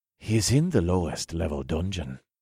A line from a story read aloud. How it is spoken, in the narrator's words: Bea answered in a low voice